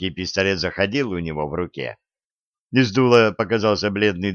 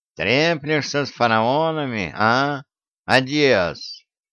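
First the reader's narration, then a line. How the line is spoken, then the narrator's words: Nasal, mocking voice. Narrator (Russian): Тариба своим гнусавым голосом насмешливо сказал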